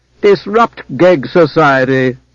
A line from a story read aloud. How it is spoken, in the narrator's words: Zancarel laughed